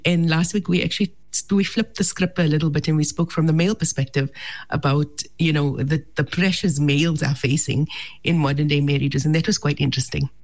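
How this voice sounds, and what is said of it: Sick, flu-affected voice. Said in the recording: “I apologize for my voice this morning. I am out with this flu”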